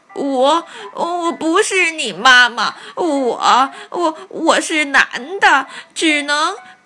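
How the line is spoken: Frightened stammering. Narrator (Chinese): 狐狸吓呆了，结结巴巴地说

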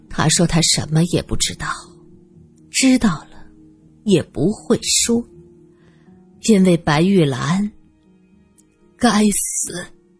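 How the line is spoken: Sighing. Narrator (Chinese): 王妈叹了口气说

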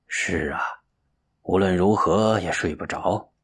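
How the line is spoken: Sighing, gloomy. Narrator (Chinese): 神秀又叹了一口气，郁闷的说

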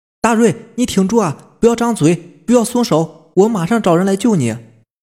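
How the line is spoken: Urgent shouting. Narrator (Chinese): 喊他

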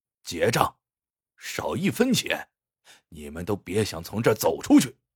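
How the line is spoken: Cold. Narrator (Chinese): 蔡老板也冷冷的说

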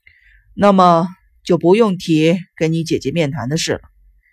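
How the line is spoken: Cold, angry. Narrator (Chinese): 生一郎还是莫名其妙的生气了，冷冷的说

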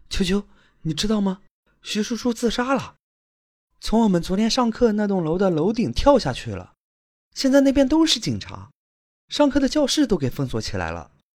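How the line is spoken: Breathless. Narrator (Chinese): 室友气喘吁吁对他说

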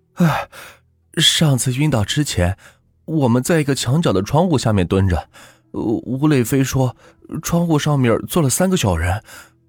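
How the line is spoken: Panting heavily. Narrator (Chinese): 我当时喘着大气，跟风水先生说

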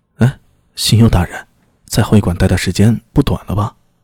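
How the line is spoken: Low, hushed voice. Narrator (Chinese): 压低声音向新右卫门说道

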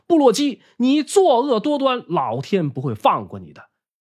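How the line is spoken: Anxious, loud, denouncing. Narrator (Chinese): 这可急坏了牢笼中的高俊，他大声呼喊高湛的小名，痛斥

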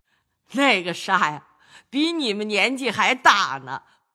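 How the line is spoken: Laughing old lady. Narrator (Chinese): 贾母笑向薛姨妈众人道

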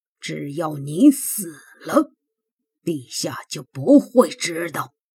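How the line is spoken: Through gritted teeth. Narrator (Chinese): 公孙启咬牙切齿地说

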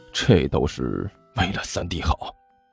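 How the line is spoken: Low, resolute. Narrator (Chinese): 刘阿贝一咬牙，低声说道

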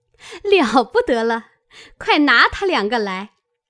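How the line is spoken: Group laughing. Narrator (Chinese): 众人听了，都笑道

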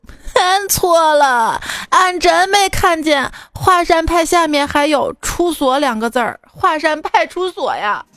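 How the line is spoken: Crying after beating. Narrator (Chinese): 经过了一夜的拷打，哥们儿哭着说

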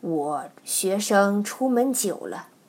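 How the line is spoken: Sighing. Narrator (Chinese): 微素叹道

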